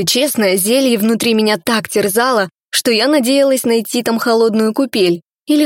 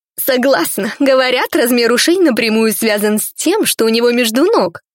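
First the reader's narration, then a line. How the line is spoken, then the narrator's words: Laughing. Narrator (Russian): рассмеялась вторая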